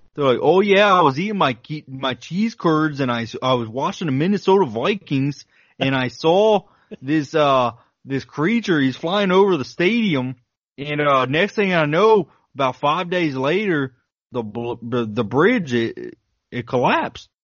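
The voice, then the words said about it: Northern Midwestern American accent. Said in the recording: “That's a really good Midwesterner northern Midwestern accent.”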